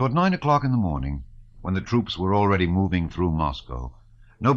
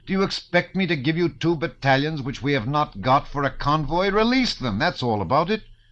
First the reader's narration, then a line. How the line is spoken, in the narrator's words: Count Rostopchin shouted angrily at the governor